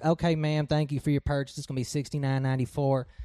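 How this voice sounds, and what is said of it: Put-on Texan accent. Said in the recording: “you just carried over a little of that Texan accent? ... No, I did that on purpose.”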